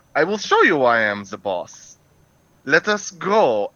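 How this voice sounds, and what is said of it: Heavy put-on German accent. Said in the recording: “He speaks with a very heavy German accent”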